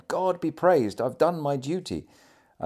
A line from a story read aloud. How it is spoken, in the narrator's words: He often exclaimed